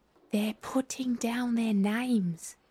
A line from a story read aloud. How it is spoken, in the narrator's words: the Gryphon whispered in reply